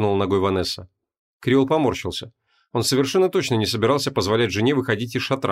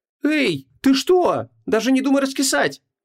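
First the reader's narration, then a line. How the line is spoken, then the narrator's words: Shouted out. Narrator (Russian): выкрикнула Вон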